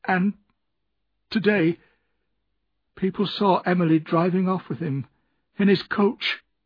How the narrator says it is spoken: continued Ham in a broken voice

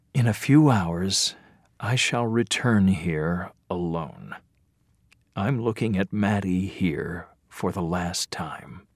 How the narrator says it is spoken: thinking

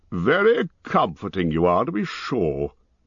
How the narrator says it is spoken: growled Thorin

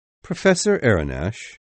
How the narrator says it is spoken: replied the captain calmly

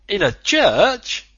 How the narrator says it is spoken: the Canadian exclaimed

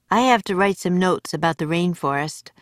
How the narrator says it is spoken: said Jack

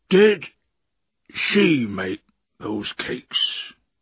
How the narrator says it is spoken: he asked slowly

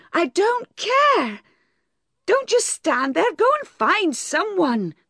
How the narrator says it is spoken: cried Bathsheba

